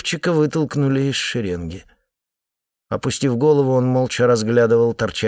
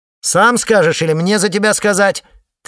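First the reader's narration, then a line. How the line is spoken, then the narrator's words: Shouted. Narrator (Russian): крикнула Стелла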